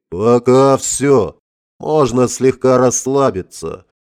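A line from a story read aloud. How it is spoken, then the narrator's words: Tired exhale. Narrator (Russian): устало выдохнул я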